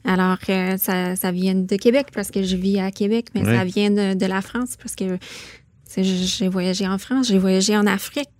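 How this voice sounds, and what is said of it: Anglophone Canadian accent in French. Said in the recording (French): “Cet accent vient d'où? Ben cet accent, ça vient de ... Saskatchewan ... d'où vient cet accent?”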